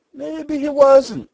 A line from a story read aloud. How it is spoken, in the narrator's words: said the giant in a cooing voice